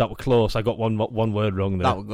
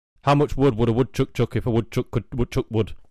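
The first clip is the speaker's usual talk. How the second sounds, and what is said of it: Very fast tongue twister. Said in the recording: “I need to say it fast”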